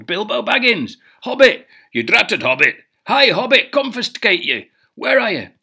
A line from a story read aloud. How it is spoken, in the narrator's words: They shouted and called